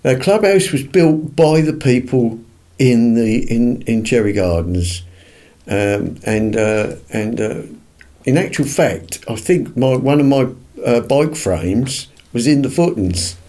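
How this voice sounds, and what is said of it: Maldon accent with Suffolk tinge. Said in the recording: “my accent ... it's a lovely accent ... I've got what I call is a Maldonite accent, which is a little bit of Suffolk in it”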